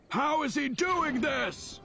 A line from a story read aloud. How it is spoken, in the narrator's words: Gull shouted